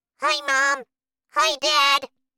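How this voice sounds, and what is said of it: Tiny, small voice. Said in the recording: “in a very small voice”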